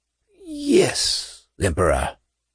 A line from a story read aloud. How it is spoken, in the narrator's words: he whispered, then choked and coughed